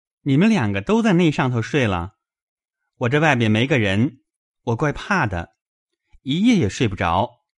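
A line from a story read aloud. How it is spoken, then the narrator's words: Laughing. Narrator (Chinese): 宝玉笑道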